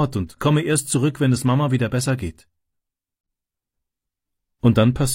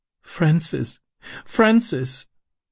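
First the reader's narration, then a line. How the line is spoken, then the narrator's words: Sobbing. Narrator (German): schluchzte sie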